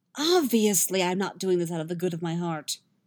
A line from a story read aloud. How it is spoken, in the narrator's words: Yennefer snaps